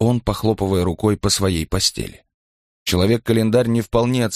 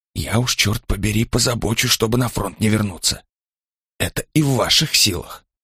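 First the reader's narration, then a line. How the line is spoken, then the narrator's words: Low mutter. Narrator (Russian): забормотал Ланкау, понизив голос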